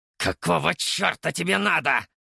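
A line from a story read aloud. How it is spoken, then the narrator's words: Angry hissing hedgehog. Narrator (Russian): зашипел еж, гневно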